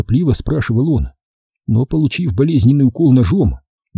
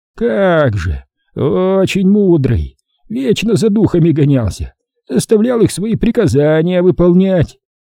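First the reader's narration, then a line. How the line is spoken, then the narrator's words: Hoarse barking laugh. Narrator (Russian): Он хрипло рассмеялся, точно пролаял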